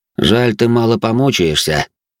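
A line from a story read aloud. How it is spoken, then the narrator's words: Cold tone. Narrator (Russian): холодным тоном произнес я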